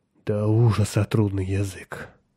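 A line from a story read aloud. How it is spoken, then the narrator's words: Sigh. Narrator (Russian): вздохнул он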